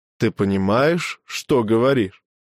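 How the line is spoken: Even-voiced question. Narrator (Russian): ровным голосом спросил Дрона

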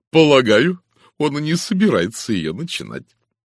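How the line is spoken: Declaration after laughing. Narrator (Russian): Отсмеявшись, она заявила

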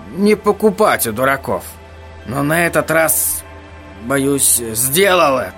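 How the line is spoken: Tired. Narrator (Russian): сказал он устало

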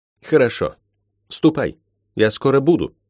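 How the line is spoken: Curt, strained. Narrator (Russian): отрывисто бросила она через силу

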